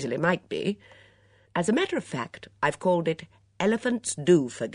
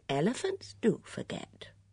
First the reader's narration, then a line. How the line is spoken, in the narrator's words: murmured Bunch